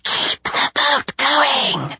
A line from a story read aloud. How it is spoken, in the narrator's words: the crew whispered with glee